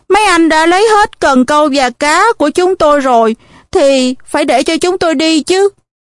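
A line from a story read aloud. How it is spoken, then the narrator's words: Fearful pleading. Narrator (Vietnamese): Tuy sợ hãi nhưng tôi cũng cố năn nỉ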